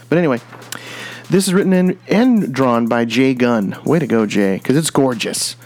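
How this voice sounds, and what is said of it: Put-on Southern American accent. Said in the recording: “I don't know why I'm throwing all the southern accent down here today”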